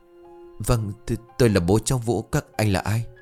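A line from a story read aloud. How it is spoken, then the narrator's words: Frightened stammer. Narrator (Vietnamese): Ông Xuân ... lắp bắp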